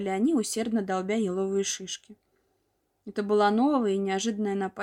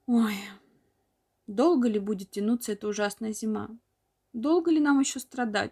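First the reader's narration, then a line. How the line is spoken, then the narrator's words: Group moaning. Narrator (Russian): стонали они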